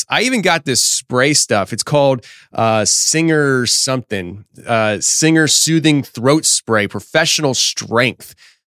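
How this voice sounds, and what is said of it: Hoarse, strained, fading voice. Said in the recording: “I'm already losing my voice.”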